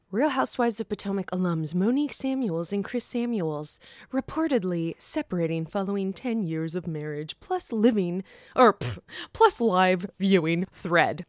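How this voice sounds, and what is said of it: Mock news anchor voice. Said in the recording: “Did you like my news voice? ... is that how I would sound if I was a news anchor? ... it could have been like sex operator-like too”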